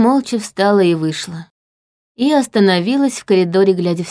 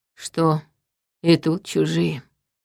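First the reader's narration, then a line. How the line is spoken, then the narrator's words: Quiet question. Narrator (Russian): тихо спросил Черим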